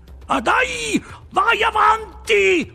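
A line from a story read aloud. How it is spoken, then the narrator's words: Shouted. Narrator (Italian): urlò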